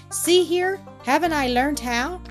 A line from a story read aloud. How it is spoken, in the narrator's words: cried Rupert exultingly